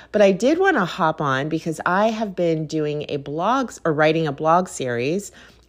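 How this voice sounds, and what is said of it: Slightly nasal, congested voice. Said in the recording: “I sound a little nasally... I'm getting over a cold”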